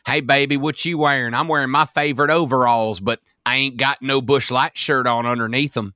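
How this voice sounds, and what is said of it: Exaggerated Southern US accent. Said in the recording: “crazy Southern accent”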